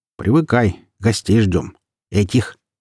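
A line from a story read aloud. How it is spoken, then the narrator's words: Plain. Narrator (Russian): ответил ему Остапенко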